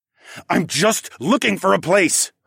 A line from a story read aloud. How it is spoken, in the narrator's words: I hissed